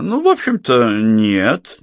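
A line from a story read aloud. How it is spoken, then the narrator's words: Uncertain. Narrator (Russian): неуверенно произнес Рэмер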